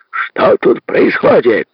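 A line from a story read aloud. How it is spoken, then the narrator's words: Barking. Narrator (Russian): рявкнул Зигфрид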